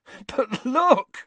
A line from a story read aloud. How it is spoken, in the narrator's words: said Ron, laughing